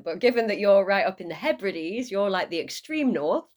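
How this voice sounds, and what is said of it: Northern English accent. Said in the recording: “I've got a northern English accent.”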